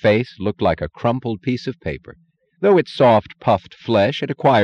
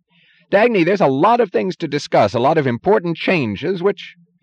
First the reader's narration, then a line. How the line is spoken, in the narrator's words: said shrilly, his voice rushing